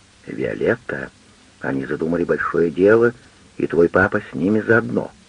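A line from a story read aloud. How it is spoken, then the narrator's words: Very quiet, mysterious. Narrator (Russian): Тоже совсем тихо, очень таинственно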